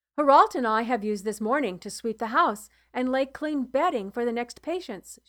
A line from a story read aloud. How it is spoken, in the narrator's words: said